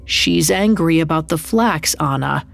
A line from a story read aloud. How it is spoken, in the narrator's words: Yosef muttered